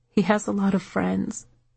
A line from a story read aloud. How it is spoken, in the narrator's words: Patty mumbled